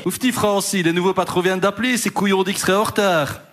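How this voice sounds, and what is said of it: Attempted Belgian Liège accent. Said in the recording (French): “C'est quoi cet accent de Liège?... je ne sais pas faire l'accent liégeois... C'est entre Liège et Bruxelles.”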